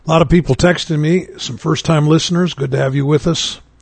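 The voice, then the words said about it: Worn-out, weak voice. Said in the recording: “my voice is kind of gone.”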